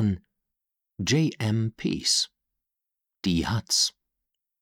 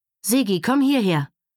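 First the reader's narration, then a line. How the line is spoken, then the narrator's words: Called out. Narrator (German): rief Sylvia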